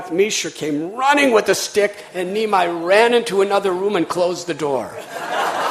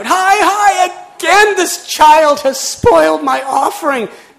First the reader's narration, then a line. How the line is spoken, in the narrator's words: He cried out